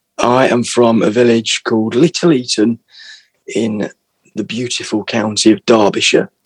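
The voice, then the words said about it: Regional English accent, not London. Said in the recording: “that's definitely not a North London accent”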